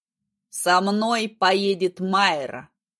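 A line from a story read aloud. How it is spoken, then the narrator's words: Cold, curt. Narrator (Russian): отрезал он холодно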